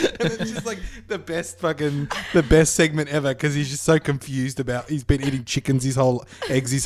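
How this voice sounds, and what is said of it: Usual voice. Nothing is said of it.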